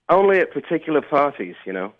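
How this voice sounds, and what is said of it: Put-on posh British accent. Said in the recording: “you sound a little British ... We've got fancy pants on our hands. ... Top drawer, sir.”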